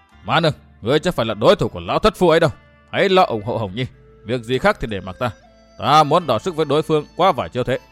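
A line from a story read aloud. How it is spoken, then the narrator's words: Shout. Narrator (Vietnamese): Phu nhân hét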